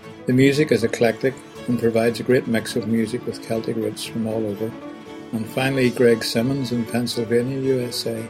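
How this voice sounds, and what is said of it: Irish accent. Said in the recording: “The narrator has a lovely Irish brogue ... your discussion of Irish accents is on target. I understand about 60% of what you're saying”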